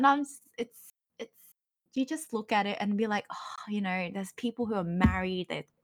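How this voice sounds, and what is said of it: Usual voice. Nothing is said of it.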